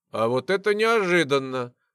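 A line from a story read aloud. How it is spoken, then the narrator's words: Mocking bass tiefling. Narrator (Russian): насмешливо пробасил один из тифлингов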